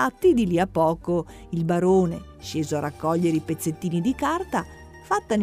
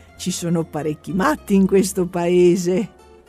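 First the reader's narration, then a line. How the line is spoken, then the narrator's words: Laughing exclamation. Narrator (Italian): esclamai ridendo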